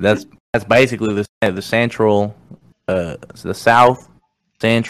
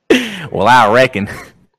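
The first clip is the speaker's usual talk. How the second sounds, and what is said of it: Put-on Southern US accent. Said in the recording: “I'm doing the south”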